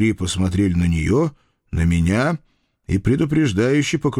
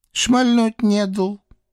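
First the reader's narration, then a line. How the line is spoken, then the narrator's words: Offended sobbing woman. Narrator (Russian): обиженно всхлипывающая хозяйка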